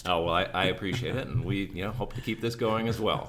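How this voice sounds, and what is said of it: Smooth, broadcast-quality radio voice. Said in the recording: “you have a wonderful radio voice.”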